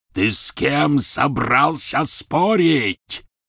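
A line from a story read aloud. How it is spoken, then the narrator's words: Roaring. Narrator (Russian): взревел Гарри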